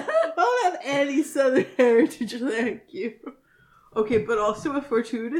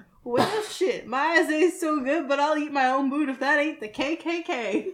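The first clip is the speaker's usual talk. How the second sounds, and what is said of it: Put-on Southern accent. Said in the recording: “I really tapped into my southern accent there ... It's so much better with the southern accent”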